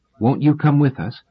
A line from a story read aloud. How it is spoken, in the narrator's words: Selden had asked anxiously